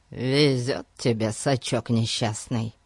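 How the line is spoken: Grumbling. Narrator (Russian): проворчал Пип

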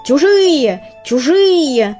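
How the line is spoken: Rooster screaming on the run. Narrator (Russian): завопил петух, не останавливаясь

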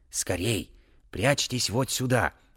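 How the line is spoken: Old man's whisper. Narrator (Russian): прошептал старик

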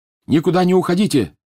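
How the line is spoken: Yelling over wind. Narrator (Russian): заорал он, перекрикивая воющий ветер

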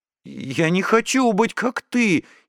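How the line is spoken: Frightened. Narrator (Russian): испуганно сказала она

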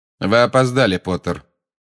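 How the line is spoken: Said coldly. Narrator (Russian): холодно сказал снег

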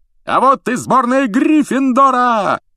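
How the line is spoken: Yelling commentator. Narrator (Russian): завопил Ли Джордан, который, как обычно, выступал в роли комментатора

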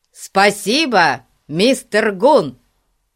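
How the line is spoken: Shouted in unison. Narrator (Russian): они в один голос крикнули

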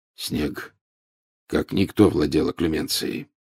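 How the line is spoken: Unusually hoarse voice. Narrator (Russian): с непривычной хрипотцой в голосе произнес Люпин

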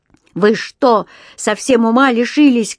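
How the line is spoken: Shouting. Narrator (Russian): кричал он

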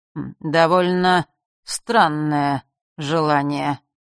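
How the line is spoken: Slow, relishing. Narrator (Russian): медленно, с каким-то наслаждением, произнес хозяин Змеулана

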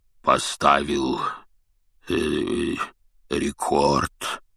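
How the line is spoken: Hoarse bass. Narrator (Russian): севшим басом произнес он

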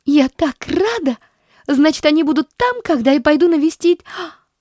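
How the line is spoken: Despairing girl's cry. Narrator (Russian): Вскрикнула девочка с отчаянием

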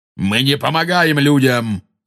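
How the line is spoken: Angry shout. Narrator (Russian): зло крикнул кентавр

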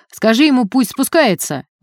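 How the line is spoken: Menacing shout. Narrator (Russian): грозно крикнул один из милиционеров

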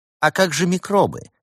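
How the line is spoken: Snide question. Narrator (Russian): ехидно спросил его святейшество

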